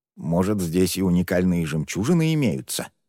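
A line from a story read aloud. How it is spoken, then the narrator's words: Old man muttering to himself. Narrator (Russian): Скорее себе, чем окружающим, пробормотал старейшина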